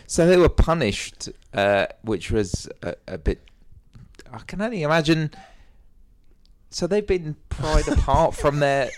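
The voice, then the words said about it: Heavy non-American accent. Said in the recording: “you got a bit of a heavy accent there... Not very American.”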